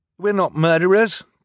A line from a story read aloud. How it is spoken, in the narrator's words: Klaus translated frantically